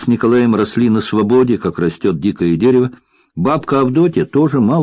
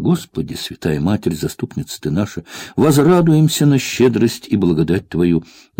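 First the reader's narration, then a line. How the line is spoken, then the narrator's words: Inaudible muttering, old woman. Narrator (Russian): Неслышно бормотала бабка Авдотья про себя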